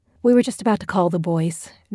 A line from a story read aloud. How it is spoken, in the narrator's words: Nora said